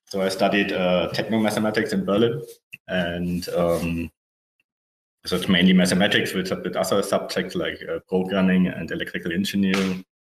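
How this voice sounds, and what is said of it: German accent. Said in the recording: “As you can hear, from my accent, I guess I'm from Germany.”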